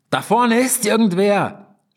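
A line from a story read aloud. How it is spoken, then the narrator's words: Shouting over roaring noise. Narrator (German): schrie Pip über das tosende Rauschen hinweg in Lukas Ohr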